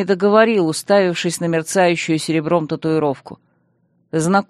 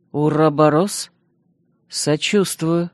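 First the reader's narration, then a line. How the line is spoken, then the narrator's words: Grumbling, calming down. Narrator (Russian): буркнул я, успокаиваясь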